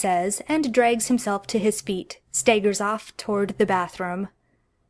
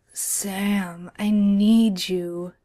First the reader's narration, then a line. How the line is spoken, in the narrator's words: Dean says, and his voice drops down at least 2 octaves